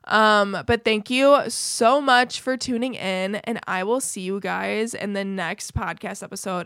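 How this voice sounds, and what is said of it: Strained, fading voice. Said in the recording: “my voice is going”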